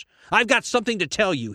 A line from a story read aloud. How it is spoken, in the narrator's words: he shouted